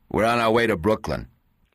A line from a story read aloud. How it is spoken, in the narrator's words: said curtly